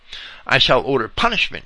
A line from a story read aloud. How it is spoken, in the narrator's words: exclaimed